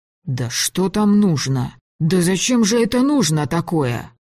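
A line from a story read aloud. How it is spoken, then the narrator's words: Grumbling. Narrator (Russian): проворчал Ефим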